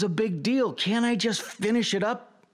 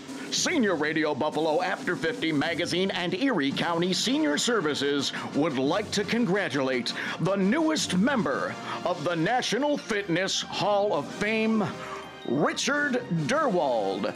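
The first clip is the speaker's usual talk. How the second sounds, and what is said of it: Big announcer voice. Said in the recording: “in my big announcer voice?”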